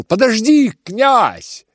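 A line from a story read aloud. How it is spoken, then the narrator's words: Shouting. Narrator (Russian): крикнул Рогожин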